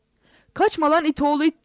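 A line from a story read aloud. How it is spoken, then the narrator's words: Shouting. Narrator (Turkish): diye bağırarak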